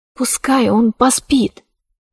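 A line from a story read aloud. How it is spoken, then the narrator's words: Whisper. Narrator (Russian): прошептала она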